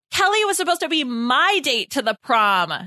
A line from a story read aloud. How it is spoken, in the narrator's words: Nora yelled